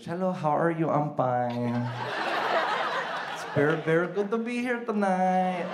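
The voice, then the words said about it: Put-on Filipino accent. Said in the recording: “I used to talk with a Filipino accent. I used to talk like this.”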